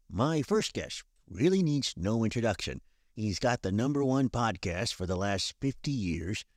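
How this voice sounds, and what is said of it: Johnny Carson impression. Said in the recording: “I went a little overboard with my impression... What If Johnny Carson Had a Podcast?”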